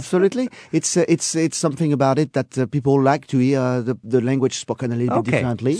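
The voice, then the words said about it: French accent. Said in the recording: “I hate my French accent.”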